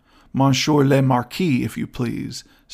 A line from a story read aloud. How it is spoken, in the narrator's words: said the young man haughtily